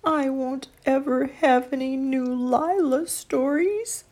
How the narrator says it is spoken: Sadly, he thought

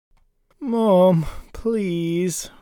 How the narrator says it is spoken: whined the embarrassed Bangle

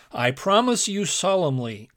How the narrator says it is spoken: cried the animated blacksmith

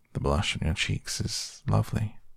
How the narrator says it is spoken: he murmured

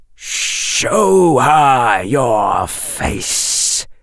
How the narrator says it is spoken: hissed the snake

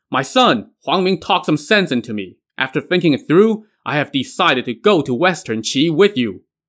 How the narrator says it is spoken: He shouted

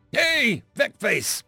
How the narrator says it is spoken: He shouted

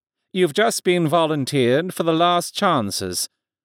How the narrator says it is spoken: the man the others had immediately dubbed Hero explained dryly

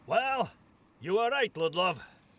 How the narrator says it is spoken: Turmgard called out from near the statue

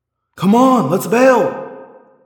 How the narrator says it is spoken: Rachel yelled

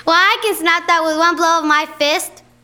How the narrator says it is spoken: yelled Lightbun

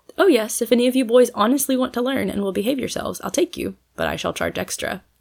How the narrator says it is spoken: answered Polly, though her face was quite sober and her tone delightfully businesslike

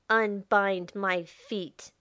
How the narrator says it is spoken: he ordered, and he put into his voice all the force and menace he could muster

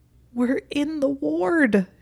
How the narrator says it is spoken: she squeaked

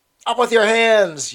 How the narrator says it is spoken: yelled a savage voice

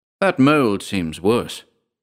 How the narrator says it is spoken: I ventured, my voice surprisingly steady

